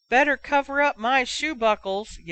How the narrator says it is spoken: yelled one chortling fan in the next aisle

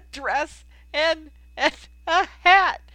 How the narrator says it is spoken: he gasped

